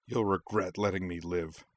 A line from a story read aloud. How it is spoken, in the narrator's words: spat